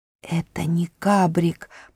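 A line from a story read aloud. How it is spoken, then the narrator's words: Whisper. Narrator (Russian): прошептал Трам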